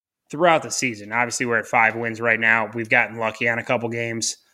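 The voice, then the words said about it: Strained, fading hoarse voice. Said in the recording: “I'm losing my voice”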